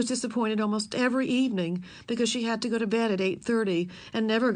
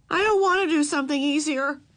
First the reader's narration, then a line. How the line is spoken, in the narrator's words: yelled Ramona